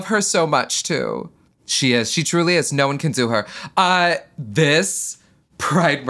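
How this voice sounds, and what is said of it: Usual voice. Nothing is said of it.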